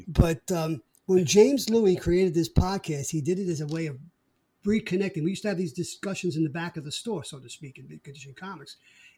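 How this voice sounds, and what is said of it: Brooklyn accent. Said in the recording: “we both have a Brooklyn accent.”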